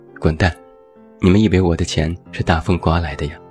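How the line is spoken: Laughing scolding. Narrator (Chinese): 我笑着骂他们

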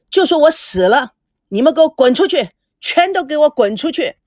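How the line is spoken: Loud furious shouting. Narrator (Chinese): 孙正大声的喊着

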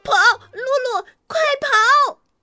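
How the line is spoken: Loud shout. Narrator (Chinese): 小鹿们大喊

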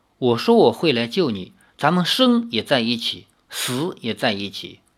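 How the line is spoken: Soft, tender voice. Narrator (Chinese): 李逍遥柔声地说

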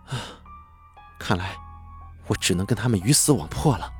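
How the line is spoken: Soft sighing speech. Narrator (Chinese): 他轻轻叹了口气说

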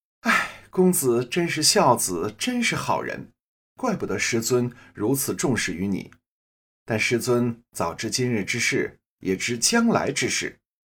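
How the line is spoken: Sighing. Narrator (Chinese): 三姐呀，叹了口气

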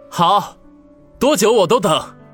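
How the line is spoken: Joyful loud reply. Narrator (Chinese): 王宇闻言大喜，只得大声回应道

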